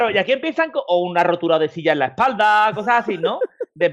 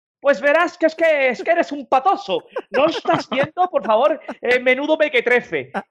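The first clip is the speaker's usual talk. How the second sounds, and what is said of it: Put-on Madrid accent, pompous tone. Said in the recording (Spanish): “Cómo me gusta tu imitación de los madrileños ... Él lo dice como pavoneándose”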